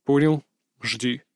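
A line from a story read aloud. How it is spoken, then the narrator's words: Brief reply. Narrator (Russian): кратко отозвался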